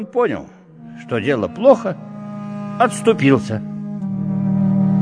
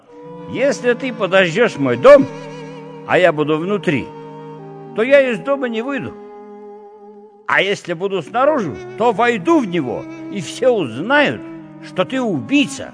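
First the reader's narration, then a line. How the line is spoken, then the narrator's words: Laughing. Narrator (Russian): А я ему ответила, с хохотом сообщила она нам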